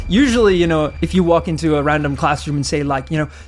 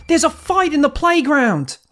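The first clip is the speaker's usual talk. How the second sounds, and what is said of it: Put-on Australian accent. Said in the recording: “My Australian accent is a little touch.”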